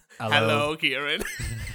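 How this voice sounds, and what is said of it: Deep radio announcer voice. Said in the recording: “I'll put on my deepest radio announcer voice.”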